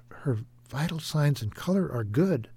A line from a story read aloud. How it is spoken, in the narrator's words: Becky's mother whispered